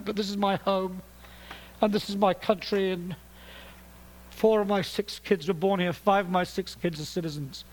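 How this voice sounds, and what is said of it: British accent. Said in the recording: “I'm speaking to you in a British accent”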